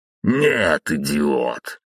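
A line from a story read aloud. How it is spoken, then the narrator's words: Said after laughing. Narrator (Russian): произнес он, просмеявшись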